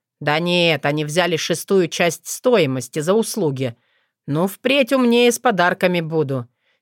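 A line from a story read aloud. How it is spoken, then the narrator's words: Joyless wry snort. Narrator (Russian): невесело хмыкнул Максим Иванович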